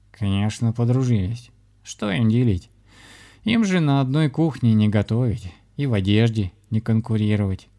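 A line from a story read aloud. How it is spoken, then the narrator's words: Laughing. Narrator (Russian): засмеялся кот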